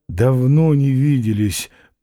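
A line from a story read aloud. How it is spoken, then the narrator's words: Tired inner thought. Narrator (Russian): подумал он устало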